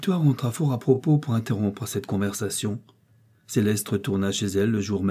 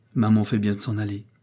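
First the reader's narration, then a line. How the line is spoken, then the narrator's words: Calm tone. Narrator (French): dit la jeune mère d'un ton calme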